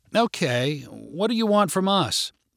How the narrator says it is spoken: asked Larissa hesitantly

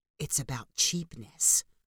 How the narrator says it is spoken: whispered Marcel

